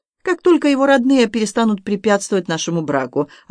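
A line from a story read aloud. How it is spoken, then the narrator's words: Calm announcement. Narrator (Russian): объявила она спокойно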